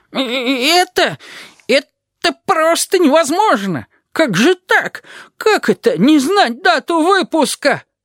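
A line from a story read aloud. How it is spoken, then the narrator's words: Sudden thin-voiced shout. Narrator (Russian): Овца неожиданно для всех выкрикнула тонким голосом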